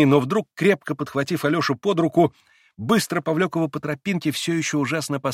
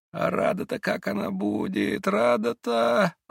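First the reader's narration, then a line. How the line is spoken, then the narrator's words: Muttering. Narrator (Russian): пробормотал было он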